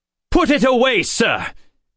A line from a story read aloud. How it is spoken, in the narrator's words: Bentham snapped